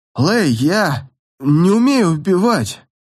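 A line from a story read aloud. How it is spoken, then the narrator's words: Suddenly plaintive voice. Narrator (Russian): Внезапно жалобным голосом сказал Юн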